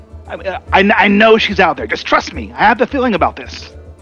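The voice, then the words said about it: Put-on goblin character accent. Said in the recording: “pardon my attempt at speaking with the Goblin accent here”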